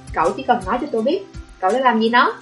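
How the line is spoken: Harsh interruption. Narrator (Vietnamese): Hương Đình gay gắt ngắt lời Sở Trung Thiên

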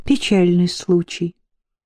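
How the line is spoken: Sincere sigh. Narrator (Russian): искренне вздохнула Флора

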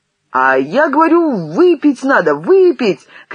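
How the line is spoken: Insistent shouting. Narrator (Russian): кричал свое Бабосов

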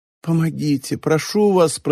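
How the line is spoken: Moaning. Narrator (Russian): простонала Мичи

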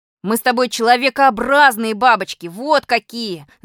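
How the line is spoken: Yelling. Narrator (Russian): заорал на меня Малинин

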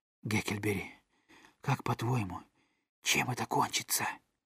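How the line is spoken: Whisper. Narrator (Russian): Том прошептал

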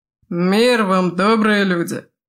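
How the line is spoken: Loud bark for all. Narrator (Russian): гаркнул Тайчо, чтобы его услышал каждый в этом странном доме

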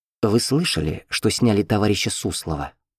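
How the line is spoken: Secretive whisper. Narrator (Russian): Андреев вдруг зашептал

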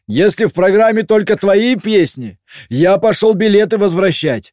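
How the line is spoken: Nearly shouting. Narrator (Russian): почти прокричал Олег

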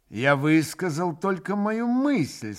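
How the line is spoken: Plain. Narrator (Russian): сказал он

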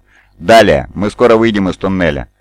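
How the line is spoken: Calm confident voice. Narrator (Russian): ровным уверенным голосом продолжал Ромео-31

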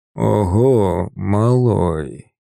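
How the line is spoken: Hoarse drawl, respectful. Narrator (Russian): Протянул он, и в его хриплом голосе впервые за все наши встречи появились нотки не насмешки или презрения, а чего-то похожего на уважение

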